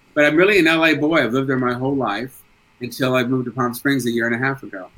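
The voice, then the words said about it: East Coast American accent. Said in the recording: “the accent is very East Coast.”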